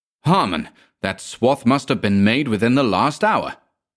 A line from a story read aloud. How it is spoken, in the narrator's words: exclaimed Manville to me